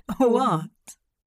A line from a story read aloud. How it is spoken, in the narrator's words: Hop chuckled the word into a pale cheek